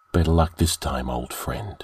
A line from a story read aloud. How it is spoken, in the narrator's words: said Delaforte softly